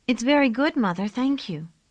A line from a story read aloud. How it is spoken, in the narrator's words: they answered happily